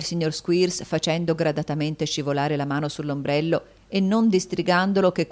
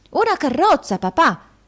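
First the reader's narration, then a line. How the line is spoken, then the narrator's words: Child's exclamation. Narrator (Italian): esclamò il piccolo Walkford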